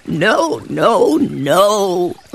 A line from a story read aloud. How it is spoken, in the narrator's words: laughed the centipede